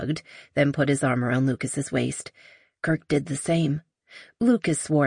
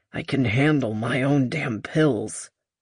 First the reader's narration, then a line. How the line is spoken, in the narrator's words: Lucas growled